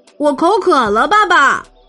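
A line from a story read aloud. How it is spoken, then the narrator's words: Shouting. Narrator (Chinese): 本本叫喊着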